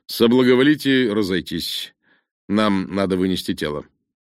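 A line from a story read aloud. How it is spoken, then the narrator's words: Commanding voice. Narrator (Russian): начальственным голосом сказал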